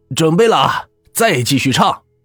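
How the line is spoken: Shouting. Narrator (Chinese): 那人喊道

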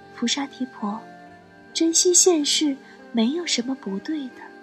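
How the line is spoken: Gentle, soft. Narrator (Chinese): 柔声说

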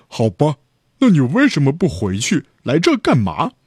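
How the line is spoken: Angry. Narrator (Chinese): 小猪被激怒了

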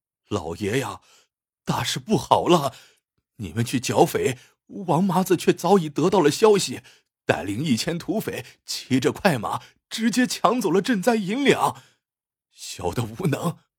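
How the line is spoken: Sobbing. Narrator (Chinese): 李豹哭哭啼啼

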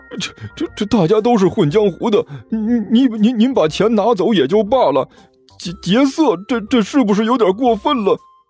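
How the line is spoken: Whining, stuttering. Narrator (Chinese): 绝庭哭丧着脸说道

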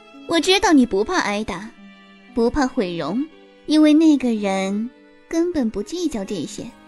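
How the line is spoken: Light, smug, smiling. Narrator (Chinese): 尹天雪笑得巧笑嫣然，声音轻快得意

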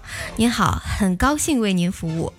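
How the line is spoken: Sweet female voice. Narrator (Chinese): 客服小姐声音甜美的说

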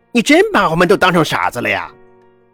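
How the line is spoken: Angry snort. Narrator (Chinese): 老者怒哼一声说

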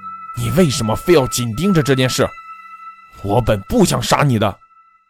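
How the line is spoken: Through gritted teeth. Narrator (Chinese): 他咬牙切齿地说

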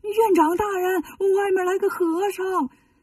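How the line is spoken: Frightened shout. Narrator (Chinese): 吓得 喊老和尚

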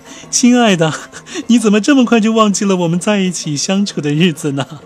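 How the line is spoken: Loud laughter. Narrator (Chinese): 白杜伦哈哈大笑，说道

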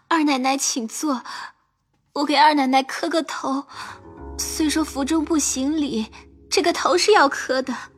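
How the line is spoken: Tearful, crying. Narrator (Chinese): 鸳鸯哭得泪人一般，说道

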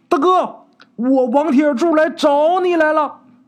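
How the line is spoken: Joyful shouting. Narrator (Chinese): 这二小那乐的不行了，高喊

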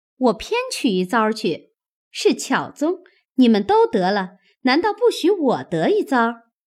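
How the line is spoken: Laughing. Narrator (Chinese): 麝月笑道

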